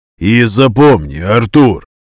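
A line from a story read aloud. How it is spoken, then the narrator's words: Brutal tone. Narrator (Russian): сказал Виталик самым брутальным своим тоном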